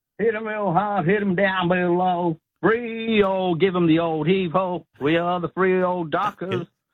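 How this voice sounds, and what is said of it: Put-on American accent while singing. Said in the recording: “What did you put on the American accent there for that?”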